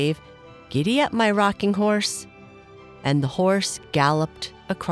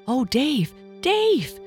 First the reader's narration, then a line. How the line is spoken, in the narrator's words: cried the little girl